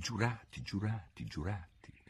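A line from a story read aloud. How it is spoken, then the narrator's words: Softly repeated. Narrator (Italian): se la ripeté a bassa voce 2 o 3 volte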